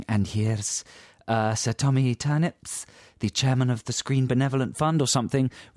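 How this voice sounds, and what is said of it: Put-on Scottish accent, then dropped. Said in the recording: “that was my Scottish accent. That's good, wasn't it? ... You dropped the accent after”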